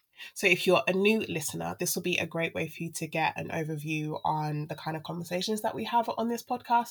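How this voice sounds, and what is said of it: Sick, unwell-sounding voice. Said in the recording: “I've been a bit under the weather. I've been really unwell. I'm sure you can hear that in my voice. I hate how I sound right now.”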